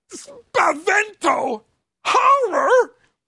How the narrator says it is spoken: croak

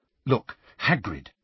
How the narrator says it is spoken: said Hermione urgently, dropping all pretense

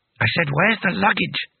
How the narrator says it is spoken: hissed Bethan behind Rincewind's back

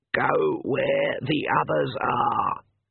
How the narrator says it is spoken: Granny Weatherwax croaked

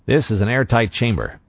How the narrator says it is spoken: Nyman said redundantly

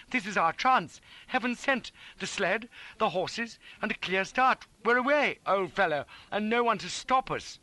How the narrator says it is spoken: cried

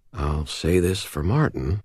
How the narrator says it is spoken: I muttered

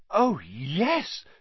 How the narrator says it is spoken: said Hermione eagerly

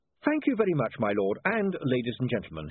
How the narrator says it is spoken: said cheerfully

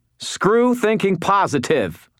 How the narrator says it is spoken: half shouted

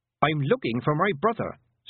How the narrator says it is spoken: said Tiffany sharply

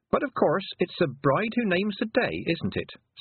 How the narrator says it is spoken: said Tiffany cheerfully

